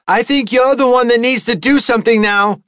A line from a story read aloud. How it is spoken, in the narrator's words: she shouted